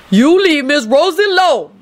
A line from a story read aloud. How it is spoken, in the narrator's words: Lucretia hollered